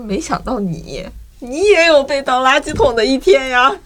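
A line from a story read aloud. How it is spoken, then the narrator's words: Snickering. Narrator (Chinese): 他就在旁边偷笑，他说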